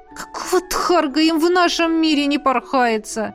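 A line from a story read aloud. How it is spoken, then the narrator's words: Groaned while flying in. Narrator (Russian): простонала Лесли на подлете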